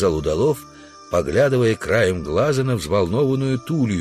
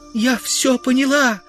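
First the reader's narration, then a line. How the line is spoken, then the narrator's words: Agonized girl crying out. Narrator (Russian): воскликнула, корчась от мучений, девушка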